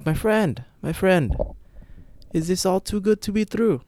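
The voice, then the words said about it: Badly done put-on foreign accent. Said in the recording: “That's a horrible accent.”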